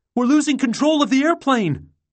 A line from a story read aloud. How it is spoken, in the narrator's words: Bonin shouted